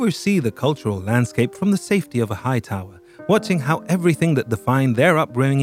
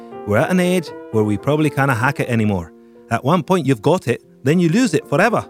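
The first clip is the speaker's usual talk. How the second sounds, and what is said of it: Put-on Glaswegian accent. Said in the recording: “my Glaswegian accent ... my impressions”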